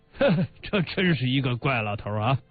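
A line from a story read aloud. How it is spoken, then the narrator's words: Hearty laughter while speaking. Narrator (Chinese): 贾为民朗朗的笑起来，边笑边说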